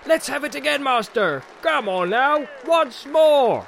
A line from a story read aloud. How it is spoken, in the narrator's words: They called for more ale and began to shout